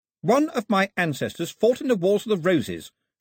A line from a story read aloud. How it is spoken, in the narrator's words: she announced haughtily